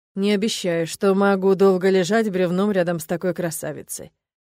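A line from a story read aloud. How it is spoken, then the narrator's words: Velvety deep voice. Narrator (Russian): своим бархатным грудным голосом произнес мой любовник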